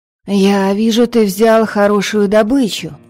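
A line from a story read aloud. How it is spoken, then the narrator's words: Sudden nearby female exclamation. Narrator (Russian): вдруг воскликнул поблизости женский голос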